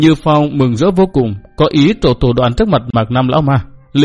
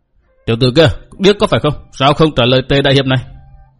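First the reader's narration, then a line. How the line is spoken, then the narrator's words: Loud shout. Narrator (Vietnamese): Tề Như Phong quát lớn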